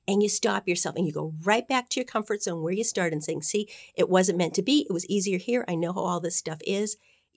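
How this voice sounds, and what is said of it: Very fast, excited speech. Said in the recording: “I'm talking really fast because I'm so excited about this”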